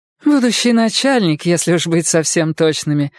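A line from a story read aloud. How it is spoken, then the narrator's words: Laughing. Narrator (Russian): гостья рассмеялась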